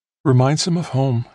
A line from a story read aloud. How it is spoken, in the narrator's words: said almost wistfully